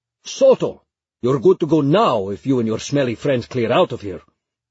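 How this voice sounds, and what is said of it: Shouted line, thick Arabic accent. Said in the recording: “shouts in his thick Arabic accent”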